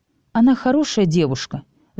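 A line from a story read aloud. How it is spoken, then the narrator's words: Sighing aunt. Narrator (Russian): вздохнула тетя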